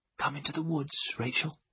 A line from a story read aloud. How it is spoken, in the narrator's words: I whispered